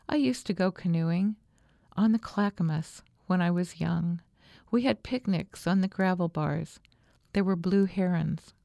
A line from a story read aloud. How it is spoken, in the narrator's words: she would say in a softer voice